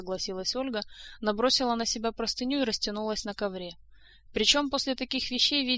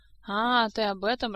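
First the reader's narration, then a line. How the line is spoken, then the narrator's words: Laughing. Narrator (Russian): рассмеялась Этель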